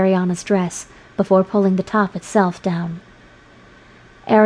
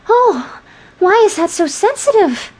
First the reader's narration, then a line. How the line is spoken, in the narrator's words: she cried